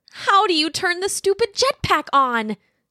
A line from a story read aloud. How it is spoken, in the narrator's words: shouted, not expecting a response